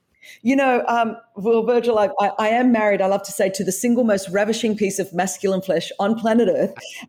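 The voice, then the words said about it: Australian accent. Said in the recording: “as you could tell from the accent, I was raised in Australia.”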